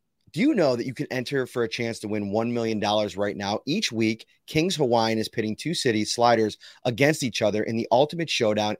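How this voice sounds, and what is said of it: Slightly hoarse voice. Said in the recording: “My voice is a little bit hoarse because I was screaming”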